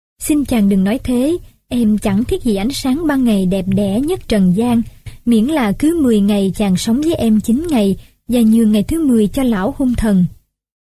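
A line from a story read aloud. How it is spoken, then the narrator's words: Smiling reply. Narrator (Vietnamese): nàng mỉm cười đáp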